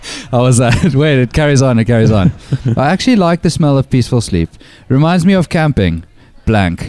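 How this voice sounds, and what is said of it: Usual voice. Nothing is said of it.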